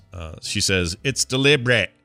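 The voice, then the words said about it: Poorly done put-on accent. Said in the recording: “That's a bad accent.”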